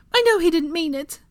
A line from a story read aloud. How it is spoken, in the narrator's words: Molly pleaded